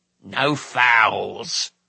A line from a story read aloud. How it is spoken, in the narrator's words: grumbled Orgoch